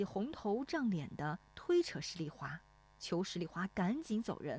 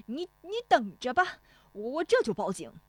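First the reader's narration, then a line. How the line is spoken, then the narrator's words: Shouting. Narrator (Chinese): 冯屋子嚷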